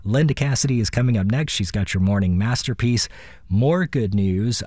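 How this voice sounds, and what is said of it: Raspy voice. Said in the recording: “this raspy voice ... I don't sound like this”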